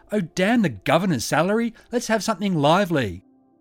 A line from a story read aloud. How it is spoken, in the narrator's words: she called out